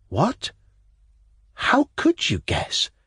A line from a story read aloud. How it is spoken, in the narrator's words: I faltered like a fool, tremendously impressed